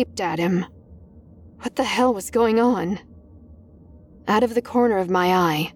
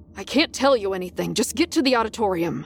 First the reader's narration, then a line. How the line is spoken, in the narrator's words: he snapped